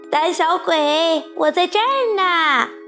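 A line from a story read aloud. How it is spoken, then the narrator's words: Shouting. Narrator (Chinese): 卡门大喊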